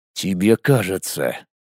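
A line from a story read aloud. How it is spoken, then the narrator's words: Through gritted teeth. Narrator (Russian): отвечая сквозь зубы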